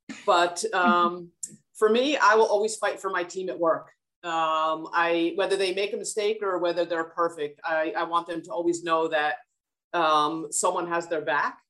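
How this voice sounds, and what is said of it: New Jersey accent. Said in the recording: “everyone will just recognize me from my Jersey accent.”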